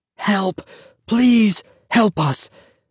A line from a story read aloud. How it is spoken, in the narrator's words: Joseph whispered frantically